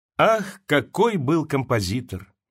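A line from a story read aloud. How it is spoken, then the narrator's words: Sigh. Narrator (Russian): вздохнул Пушкин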